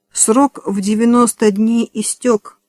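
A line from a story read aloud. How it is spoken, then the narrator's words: Plain. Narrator (Russian): сказала Эми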